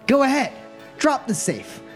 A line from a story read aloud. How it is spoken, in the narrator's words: She shouts